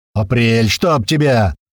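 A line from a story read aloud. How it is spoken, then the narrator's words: Deep bass, from side. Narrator (Russian): пробасил откуда-то сбоку Иван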